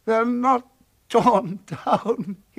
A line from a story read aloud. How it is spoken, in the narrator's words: he cried